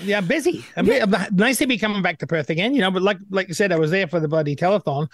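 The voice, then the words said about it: Scottish accent. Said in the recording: “He may have a Scottish accent”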